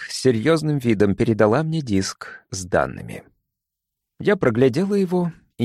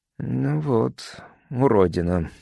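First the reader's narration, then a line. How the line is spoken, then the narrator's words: Breathy exhale. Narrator (Russian): выдохнул он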